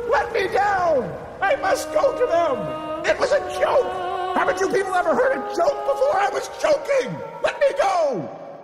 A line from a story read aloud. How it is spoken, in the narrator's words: struggling and screaming